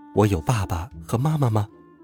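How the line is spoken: Muttering to oneself. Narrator (Chinese): 陈静一喃喃自语

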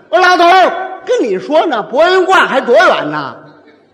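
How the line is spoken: Calling out. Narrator (Chinese): 我还又喊

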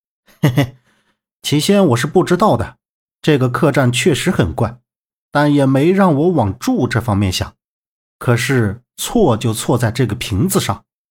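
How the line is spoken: Chuckling. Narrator (Chinese): 萧平浪嘿嘿一笑，道

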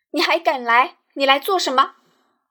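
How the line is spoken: Demon lord's strained cry. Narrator (Chinese): 魔君将口中的血咳尽，妖力回转，化成声音，叫了一声

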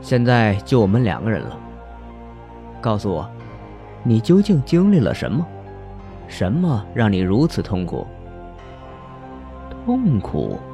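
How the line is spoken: Flat, detached. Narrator (Chinese): 方墨淡淡的说

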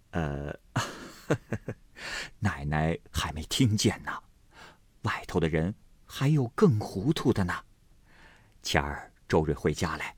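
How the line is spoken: With a laugh. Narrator (Chinese): 又笑了一声，道

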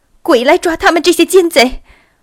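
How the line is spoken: Shouting. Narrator (Chinese): 有一个人喊叫

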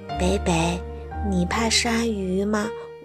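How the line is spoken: Whispered question. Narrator (Chinese): 他小声问北北

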